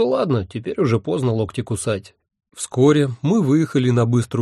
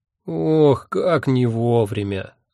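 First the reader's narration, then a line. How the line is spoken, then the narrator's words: Vexed groan. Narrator (Russian): с досадой простонал Эбенгальф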